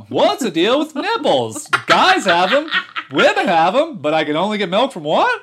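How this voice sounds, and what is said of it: Stand-up comedian impression. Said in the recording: “That's Jerry Seinfeld. ... Your baby Seinfeld impression.”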